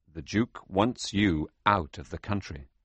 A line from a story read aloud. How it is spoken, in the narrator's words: the man said